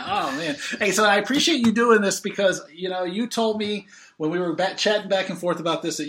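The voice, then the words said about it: American accent. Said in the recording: “my dirty American accent”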